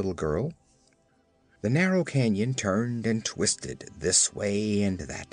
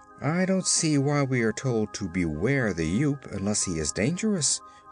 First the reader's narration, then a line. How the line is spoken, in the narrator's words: observed the Scarecrow in a puzzled tone